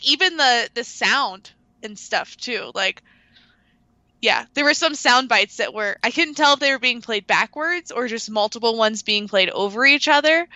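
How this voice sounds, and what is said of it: Raspy voice. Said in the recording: “great podcast voice ... perfectly raspy from all the dabs I've been doing”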